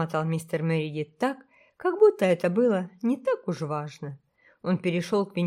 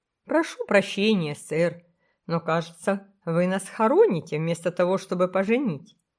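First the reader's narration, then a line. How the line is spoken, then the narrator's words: Laughing, calm. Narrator (Russian): жених, его нервы были в полном порядке, засмеялся и сказал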